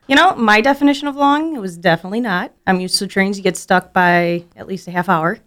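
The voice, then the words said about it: Slight Chicago accent. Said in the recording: “you are from Chicago, and people may pick up a little bit of your accent.”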